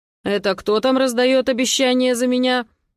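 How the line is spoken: Stern voice from above. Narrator (Russian): доносится сверху строгим голосом

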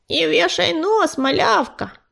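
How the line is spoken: Creaky voice. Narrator (Russian): проскрипела горностайка

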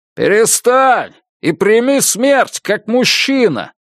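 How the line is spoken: Shout. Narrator (Russian): крикнул

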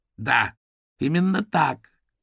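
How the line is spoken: Hoarse. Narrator (Russian): голос у него был хриплым

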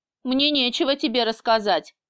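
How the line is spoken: Muttered. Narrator (Russian): буркнула я

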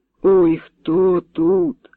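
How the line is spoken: Weak cry. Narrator (Ukrainian): скрикнула слабим голосом

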